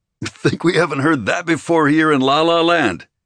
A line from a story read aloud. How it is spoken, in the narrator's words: Another officer snorted